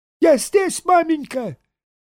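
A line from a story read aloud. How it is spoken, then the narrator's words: Squeak. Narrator (Russian): пискнул Саранин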